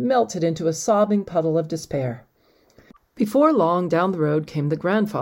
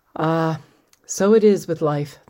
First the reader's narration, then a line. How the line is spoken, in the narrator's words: the grandfather sighed